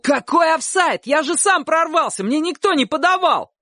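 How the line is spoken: Shouted. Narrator (Russian): Чик крикнул

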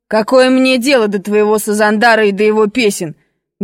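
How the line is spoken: Rough angry shout. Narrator (Russian): грубо крикнул армянин

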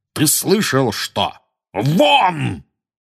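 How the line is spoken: Startlingly loud bark. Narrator (Russian): гаркнул дядя Вернон так, что даже тетя Петунья и Дадли подскочили

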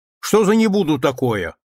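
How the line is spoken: Irritated shouting. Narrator (Russian): в раздражении кричала на него Анна Дмитриевна

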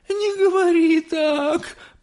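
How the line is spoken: Moaning. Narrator (Russian): простонала миссис Телек

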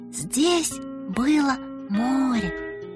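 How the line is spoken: Happy smiling whisper. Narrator (Russian): шептала Соня и счастливо улыбалась

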